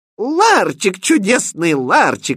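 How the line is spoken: Delighted shout. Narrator (Russian): восторженно закричала принцесса

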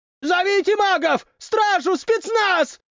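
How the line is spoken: Shouted. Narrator (Russian): прокричал

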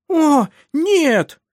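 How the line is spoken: Squeaking. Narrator (Russian): пищала Карин

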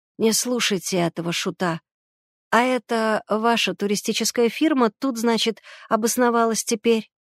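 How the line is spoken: Plain. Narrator (Russian): спросил он Мещерского

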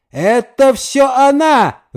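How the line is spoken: Yelling. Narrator (Russian): вопил один

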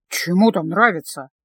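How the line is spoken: Gloomy reply. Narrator (Russian): мрачно ответил Стефано

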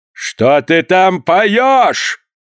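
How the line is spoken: Thunderous shout. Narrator (Russian): громовым голосом крикнул маэстро

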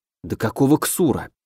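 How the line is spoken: Muttering to himself. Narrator (Russian): пробормотал я себе под нос

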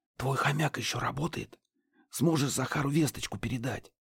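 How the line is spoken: Whisper. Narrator (Russian): шепнул Гидеон

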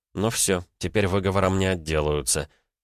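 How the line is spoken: Whisper. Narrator (Russian): кто-то шепнул

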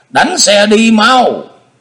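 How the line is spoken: Shouted in Mongolian. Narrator (Vietnamese): Na Khâm hét lên một tiếng bằng tiếng Mông Cổ

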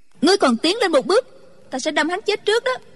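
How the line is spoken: Shouting. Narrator (Vietnamese): Chu Chỉ Nhược quát lên

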